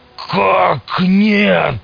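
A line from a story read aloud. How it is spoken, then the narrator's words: Roaring. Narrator (Russian): взревел тот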